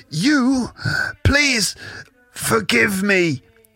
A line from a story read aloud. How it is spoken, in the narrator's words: gasps the groundskeeper